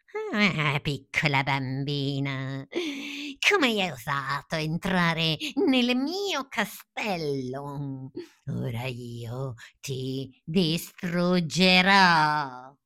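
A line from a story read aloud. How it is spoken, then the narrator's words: Loud witch's laughter. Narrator (Italian): la strega rise forte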